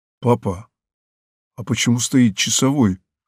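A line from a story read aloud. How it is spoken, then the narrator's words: Child's whispered question. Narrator (Russian): шепотом спросил мальчик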